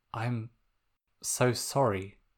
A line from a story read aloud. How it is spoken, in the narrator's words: Sokka said softly